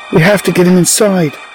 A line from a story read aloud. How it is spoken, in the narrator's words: I pleaded with the others